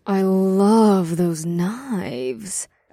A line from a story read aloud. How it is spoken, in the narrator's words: Ash purred